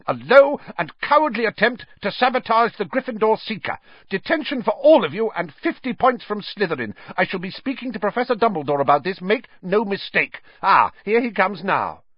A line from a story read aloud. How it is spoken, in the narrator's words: she was shouting